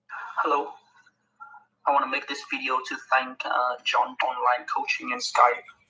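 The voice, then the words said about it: British-Vietnamese accent. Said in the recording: “listen to the accent. ... So it's like a British slash Vietnamese accent.”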